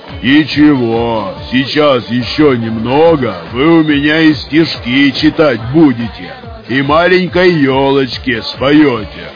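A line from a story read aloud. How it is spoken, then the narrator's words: Loud pleased bass voice. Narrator (Russian): Довольно пробасил на весь бар Данила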